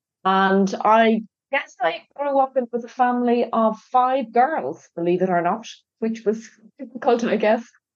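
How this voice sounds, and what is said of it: Irish accent. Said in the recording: “I'm Irish, as you can probably tell from my accent.”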